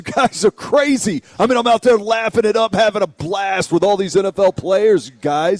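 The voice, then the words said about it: Raspy impression of Michael Silver. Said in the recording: “He kind of talks like this. ... And that's not an accent. It's not an accent. That's his throat just tired from all the smoking.”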